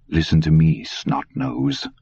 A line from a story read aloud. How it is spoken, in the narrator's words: Dusander said quietly